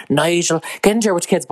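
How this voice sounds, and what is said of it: Imitated bad Dublin accent. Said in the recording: “she's doing a Dublin accent ... her accent is really bad”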